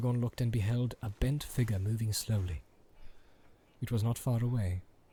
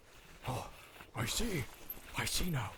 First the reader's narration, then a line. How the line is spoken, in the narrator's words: hissed Gimli